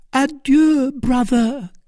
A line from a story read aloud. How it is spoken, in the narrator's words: cried Milady